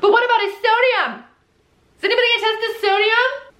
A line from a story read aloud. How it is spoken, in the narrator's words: Lacey's screaming